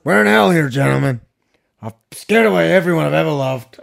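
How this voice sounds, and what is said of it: Imitates another person's voice. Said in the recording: “That's my Al Pacino... That's old Pacino, not young Pacino... That's pretty good.”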